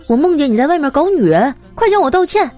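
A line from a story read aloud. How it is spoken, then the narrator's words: Angry wife. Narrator (Chinese): 妻子，怒气冲冲的说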